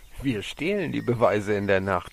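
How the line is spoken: Laughing. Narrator (German): lachte

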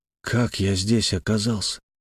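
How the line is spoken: Quiet, shaken question. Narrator (Russian): тихо спросил я, немного отойдя от шока

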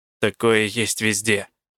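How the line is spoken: Muttering. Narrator (Russian): буркнула я

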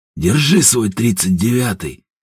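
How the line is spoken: Chuckling. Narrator (Russian): Посмеиваясь

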